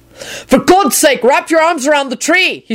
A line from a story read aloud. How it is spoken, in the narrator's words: he shouted at her